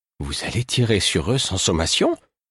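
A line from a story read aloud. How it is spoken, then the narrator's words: Faint, faltering voice. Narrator (French): fit Astérie, d'une voix défaillante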